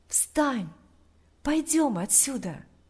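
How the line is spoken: Whisper in ear. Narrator (Russian): Тот же голос прошептал ему на ухо

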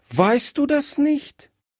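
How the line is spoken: Surprised exclamation. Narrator (German): rief Gretchen überrascht aus

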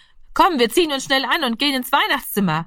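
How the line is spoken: Calling out. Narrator (German): rief er

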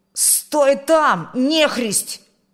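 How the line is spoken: Shouted. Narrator (Russian): крикнул он

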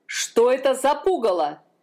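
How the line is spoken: Shouting. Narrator (Russian): закричал король

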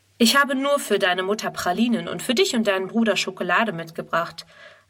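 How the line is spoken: Plain. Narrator (German): antwortet er

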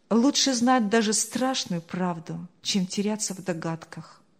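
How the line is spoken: Inward sigh. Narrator (Russian): вздохнул про себя Павел

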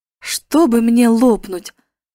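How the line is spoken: Bewildered exclamation. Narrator (Russian): воскликнул Дик, недоумение

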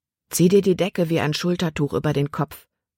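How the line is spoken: Plain. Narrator (German): sagte Caleb

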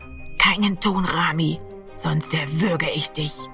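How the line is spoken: Whisper in ear. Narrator (German): flüsterte Giro an seinem Ohr

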